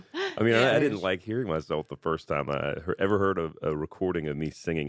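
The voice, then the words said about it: Smooth radio voice. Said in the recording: “You have, like, a great voice, man... You've got, like, that radio voice, you know? It's all smooth.”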